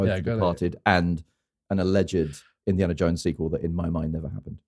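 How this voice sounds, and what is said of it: Usual voice. Nothing is said of it.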